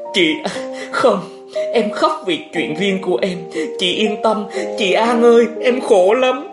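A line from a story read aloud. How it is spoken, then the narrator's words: Sobbing, held-back breaths. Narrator (Vietnamese): Thọ Hương cố dằn từng hơn, nức nở nói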